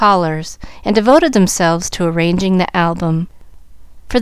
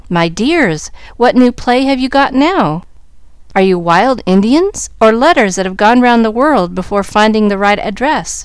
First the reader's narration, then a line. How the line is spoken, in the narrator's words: she asked, laughing at the ridiculous sight